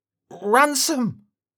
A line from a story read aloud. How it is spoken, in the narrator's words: Thomas finally musters up the strength to speak and shouts